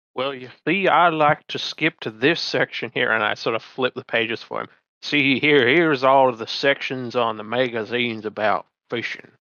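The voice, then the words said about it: Inconsistent put-on accent. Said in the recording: “My accent seems to be a little inconsistent this morning.”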